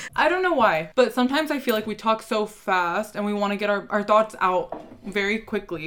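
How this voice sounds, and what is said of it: Valley Girl accent. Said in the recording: “we have a Valley Girl accent ... We really do have a Valley Girl accent”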